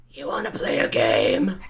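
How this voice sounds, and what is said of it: Gravelly creepy puppet character voice. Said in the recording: “your Billy impression ... gravel”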